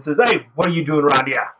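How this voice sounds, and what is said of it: Character voice with an accent. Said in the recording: “that's a good accent... That's about as good as it gets for me.”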